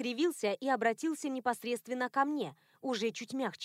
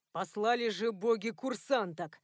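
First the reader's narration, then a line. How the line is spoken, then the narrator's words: Irritated. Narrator (Russian): раздраженно отозвался Натаниэль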